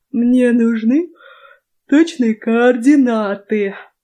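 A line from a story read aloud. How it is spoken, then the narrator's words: Lazy, yawning reply. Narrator (Russian): лениво ответил Врайт, зевая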